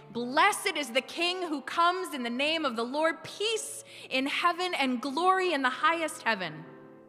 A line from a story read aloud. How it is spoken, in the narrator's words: They yelled and chanted and sang